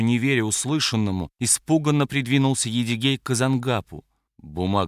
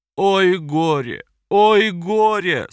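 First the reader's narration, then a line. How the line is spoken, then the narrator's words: Moaning. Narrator (Russian): Укубала и застонала, раскачиваясь из стороны в сторону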